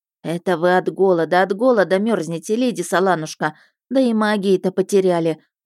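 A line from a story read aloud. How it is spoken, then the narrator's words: Pitying sigh. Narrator (Russian): вздохнула Вишана и с жалостью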